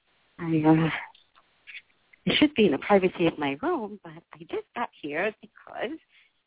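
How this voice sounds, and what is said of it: Whispering. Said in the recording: “I'm kind of whispering”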